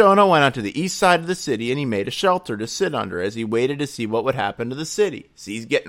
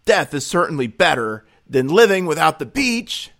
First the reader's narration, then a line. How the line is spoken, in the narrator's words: Chris exclaimed